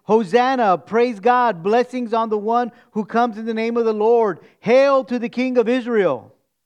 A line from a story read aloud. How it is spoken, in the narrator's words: They shouted